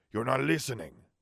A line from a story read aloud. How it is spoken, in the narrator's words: Salazar snapped